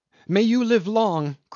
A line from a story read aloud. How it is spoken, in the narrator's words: cried Tommy Tom